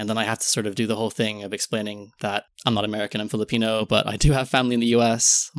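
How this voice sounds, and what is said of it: Near-American sounding accent. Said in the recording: “my accent most closely resembles an American accent to a British person”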